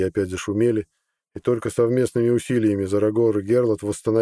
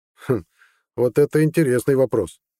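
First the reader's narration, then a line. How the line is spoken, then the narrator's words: Thoughtful hum. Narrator (Russian): хмыкнул Зарагор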